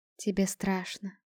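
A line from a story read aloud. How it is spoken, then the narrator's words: Soft, smiling. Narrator (Russian): мягко улыбнулась Саанви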